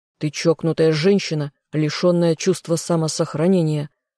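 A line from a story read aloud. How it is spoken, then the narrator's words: Reproachful growl. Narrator (Russian): рыкнул он, смотря на меня с укором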